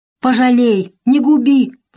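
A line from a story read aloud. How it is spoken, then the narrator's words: Pleading. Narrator (Russian): взмолился труба на Щекин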